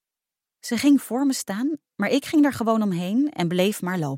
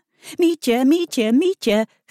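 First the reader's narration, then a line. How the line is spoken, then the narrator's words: Giggling. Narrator (Dutch): giechelde Emma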